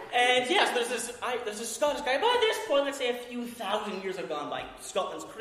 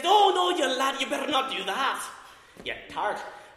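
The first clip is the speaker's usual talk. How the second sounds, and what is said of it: Thick put-on Scottish accent. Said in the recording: “Let's put him as Scottish. I can do a thick Scottish accent for sure ... It's a lot of fun doing a Scottish accent.”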